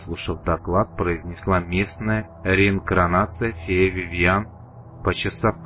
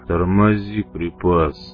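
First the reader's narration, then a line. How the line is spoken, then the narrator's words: Deep bass. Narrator (Russian): пробасил малява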